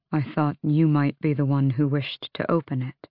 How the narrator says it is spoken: Dorian said quietly

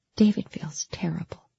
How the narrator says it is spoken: she whispered

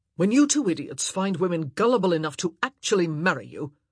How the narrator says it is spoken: Anthony snapped

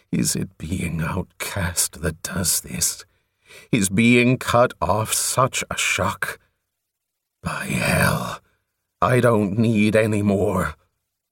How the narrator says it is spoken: To himself he groaned

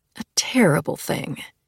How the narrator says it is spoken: she murmured

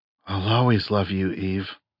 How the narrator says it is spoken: Adam said softly

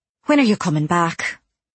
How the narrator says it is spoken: I sighed and said, in spite of myself

